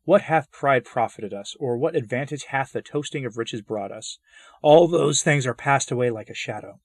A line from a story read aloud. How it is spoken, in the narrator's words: weep in perdition and exclaim